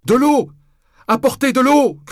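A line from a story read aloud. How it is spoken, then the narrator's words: Shouted. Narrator (French): criai-je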